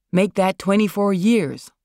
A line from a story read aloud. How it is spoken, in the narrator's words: Marlon snapped, but with his classic wry Marlon smile